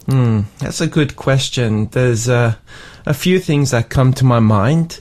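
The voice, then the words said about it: Slightly lower, odd-sounding voice. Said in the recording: “my voice is a little bit funny. It feels a little bit lower today.”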